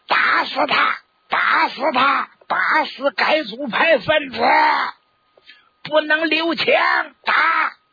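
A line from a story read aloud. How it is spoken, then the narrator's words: Angry crowd shouting. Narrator (Chinese): 大家心情正在坏 喊上了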